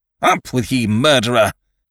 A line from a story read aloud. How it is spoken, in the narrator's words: cried Ned